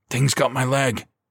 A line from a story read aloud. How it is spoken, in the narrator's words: he gasped